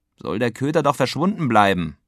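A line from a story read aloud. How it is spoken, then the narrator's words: Calling out. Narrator (German): ruft er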